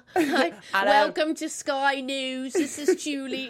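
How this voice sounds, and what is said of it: Put-on British Cockney accent. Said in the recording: “go like full British ... a British accent ... develop a full-on Cockney accent”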